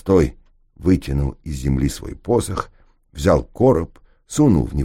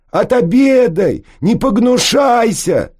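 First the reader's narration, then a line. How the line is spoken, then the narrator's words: Shouts from crowd. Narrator (Russian): закричали в толпе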